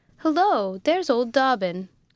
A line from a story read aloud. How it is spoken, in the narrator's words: cried, quite delighted to see his old friend